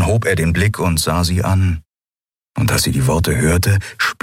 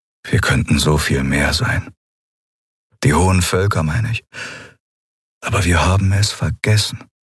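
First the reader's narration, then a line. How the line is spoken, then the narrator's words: Sad. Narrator (German): Er klang traurig, als er sagte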